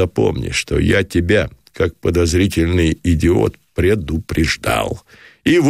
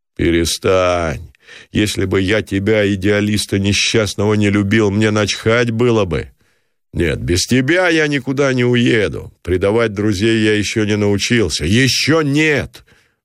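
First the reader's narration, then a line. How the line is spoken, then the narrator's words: Shouted loudly. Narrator (Russian): выкрикнул Самсонов повышенным голосом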